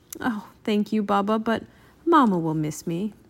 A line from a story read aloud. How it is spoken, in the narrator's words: Bill said sadly